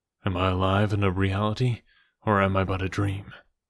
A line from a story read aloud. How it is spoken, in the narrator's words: he asked